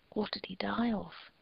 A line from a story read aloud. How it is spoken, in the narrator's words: whispered